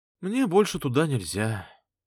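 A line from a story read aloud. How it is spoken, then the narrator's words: Sad. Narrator (Russian): грустно сказала Мари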